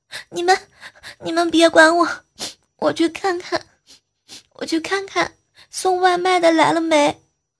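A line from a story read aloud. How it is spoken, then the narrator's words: Weak, crying. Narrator (Chinese): 女孩子用最后的力气又哭了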